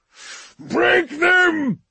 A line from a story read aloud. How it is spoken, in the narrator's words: Lord Gunn roared, his whole voice shaking with the wrath that burned up from his hearts